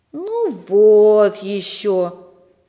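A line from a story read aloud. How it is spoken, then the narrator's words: Disappointed drawl. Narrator (Russian): разочарованно протянул Сережа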